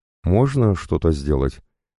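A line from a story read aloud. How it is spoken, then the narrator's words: Irritated question. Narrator (Russian): раздраженно спрашивает жена Одрила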